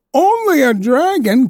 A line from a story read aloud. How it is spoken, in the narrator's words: cried his father